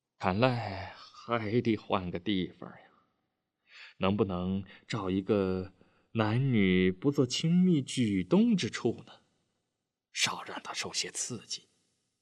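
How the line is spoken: Sighing. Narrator (Chinese): 金满 叹了口气道

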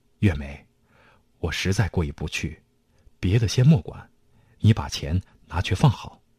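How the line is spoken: Bitter hushed voice. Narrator (Chinese): 美方苦苦一笑，压低嗓门说

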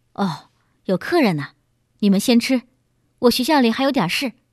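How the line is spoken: Hurried speech. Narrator (Chinese): 他急忙说

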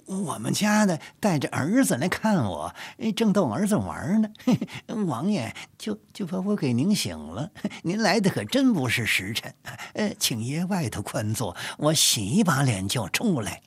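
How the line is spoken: Cheerful, respectful. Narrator (Chinese): 纪云 笑着 说道

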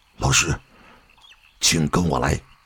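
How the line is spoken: Low voice. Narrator (Chinese): 高桥次郎低声地说道

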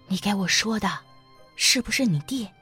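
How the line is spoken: Whisper. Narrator (Chinese): 齐菊英 悄声说

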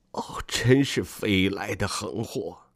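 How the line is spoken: Stunned, muttering to himself. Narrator (Chinese): 父亲好像吓呆了，喃喃自语说

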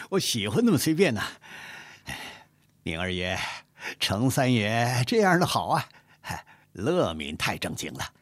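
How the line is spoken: Laughing, mumbling mouth full. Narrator (Chinese): 傅恒边吃边笑，口中呜噜不清地说道

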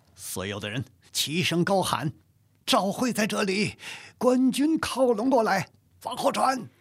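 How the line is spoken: Commanding. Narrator (Chinese): 赵惠发令道

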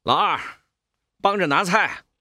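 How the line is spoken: Calling out. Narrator (Chinese): 叫瑞丰

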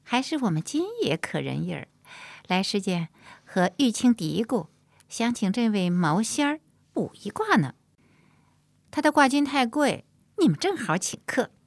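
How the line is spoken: Laughing. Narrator (Chinese): 玉兰拍手笑道

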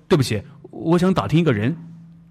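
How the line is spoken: Soft call. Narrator (Chinese): 他轻声地叫住他

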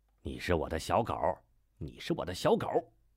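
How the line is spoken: Murmured. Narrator (Chinese): 快马 喃喃道

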